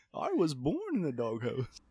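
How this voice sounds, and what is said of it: Poor Bane impression voice. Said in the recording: “That was such a bad Bane impression. ... That voice wasn't good.”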